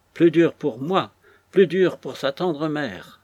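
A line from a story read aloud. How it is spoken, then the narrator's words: Old woman exclaiming. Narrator (French): s'écria la vieille femme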